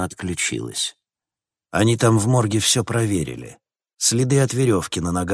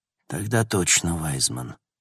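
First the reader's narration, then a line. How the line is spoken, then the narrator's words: Sighing. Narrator (Russian): вздохнул Логан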